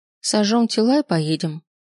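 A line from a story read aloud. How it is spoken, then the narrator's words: Calm. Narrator (Russian): спокойно сказала Софья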